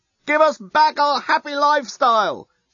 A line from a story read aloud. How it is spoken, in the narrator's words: shout the Yasican demonstrators unintelligibly to the Blerontinian onlookers